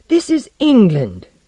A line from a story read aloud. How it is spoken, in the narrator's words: cried Blank